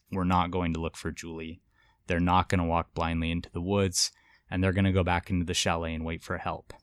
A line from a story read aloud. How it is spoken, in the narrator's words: she calmly and authoritatively says